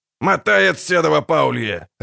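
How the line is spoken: Barked. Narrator (Russian): рявкнул Ярпин Зигрин

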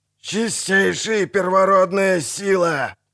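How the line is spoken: Shouting over noise. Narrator (Russian): крикнул друид, перекрывая гул и грохот

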